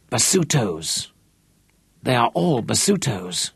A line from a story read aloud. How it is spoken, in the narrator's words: one of his Shangaans whispered